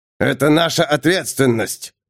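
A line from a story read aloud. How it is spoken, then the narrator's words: Small growl. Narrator (Russian): рыкнул крошка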